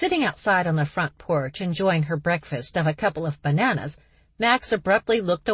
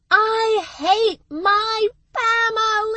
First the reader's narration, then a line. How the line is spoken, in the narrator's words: Charlie suddenly screamed